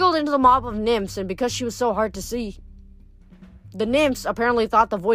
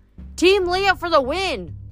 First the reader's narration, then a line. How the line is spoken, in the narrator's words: Echo shouted